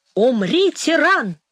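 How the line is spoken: Shouting crowd. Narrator (Russian): кричали они

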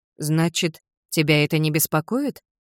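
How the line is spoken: Plain. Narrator (Russian): спросила Селия

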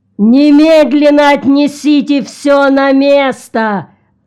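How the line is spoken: Shouted. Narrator (Russian): закричал Орво

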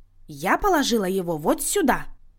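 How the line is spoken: Clipped, emphatic. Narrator (Russian): Отчеканила Люся

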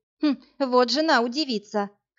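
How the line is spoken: Amused snort. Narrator (Russian): хмыкнула Машка

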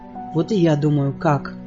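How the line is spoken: Gloomy. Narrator (Russian): мрачно проговорил

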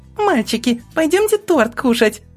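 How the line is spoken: Exclaiming. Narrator (Russian): воскликнула

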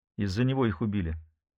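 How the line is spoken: Quiet. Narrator (Russian): тихо сказала Нина

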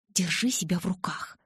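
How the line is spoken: Hiss. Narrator (Russian): зашипела я

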